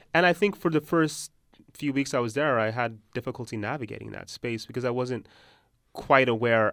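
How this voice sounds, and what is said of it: American accent. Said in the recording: “my American accent. These mark me as someone who's from America”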